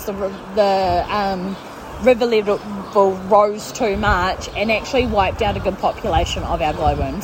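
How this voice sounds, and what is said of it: New Zealand accent. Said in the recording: “Do you have lessons to teach me how to talk like you guys talk? Because I love your accent. ... Kiwis”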